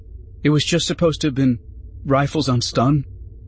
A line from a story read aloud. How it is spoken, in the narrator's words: Jabe said, his voice faltering